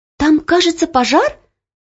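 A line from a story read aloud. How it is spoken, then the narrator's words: Exclamation. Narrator (Russian): воскликнула Оля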